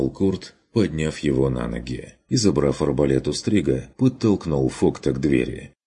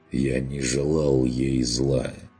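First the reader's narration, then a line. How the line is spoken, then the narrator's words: Quiet objection. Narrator (Russian): тихо возразил тот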